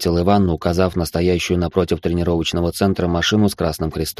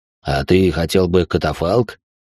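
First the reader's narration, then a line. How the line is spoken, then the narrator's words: Smirking grunt. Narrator (Russian): хмыкнул Иван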